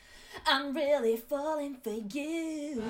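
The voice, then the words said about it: Imitates a band's singing voice. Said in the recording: “my busted impression”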